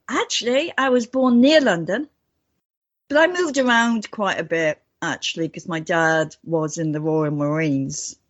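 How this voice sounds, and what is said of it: Slight British accent. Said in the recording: “little of that United Kingdom accent with you”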